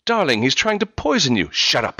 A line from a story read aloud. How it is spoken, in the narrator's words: she snapped